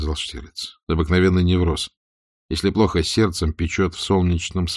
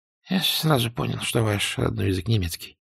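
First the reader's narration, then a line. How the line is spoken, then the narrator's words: Whispered. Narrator (Russian): прошептал Зуля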